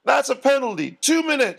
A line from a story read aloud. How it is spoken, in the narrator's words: shouted the ref